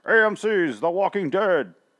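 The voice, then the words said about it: TV announcer voice. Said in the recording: “doing the announcer voice.”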